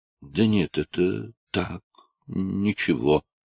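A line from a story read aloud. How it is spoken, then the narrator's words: Guilty mumble. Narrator (Russian): пробормотал я, с виноватым видом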